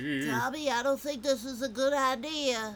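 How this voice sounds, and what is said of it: Imitates a cartoon character's voice. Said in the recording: “You do a good impression of that.”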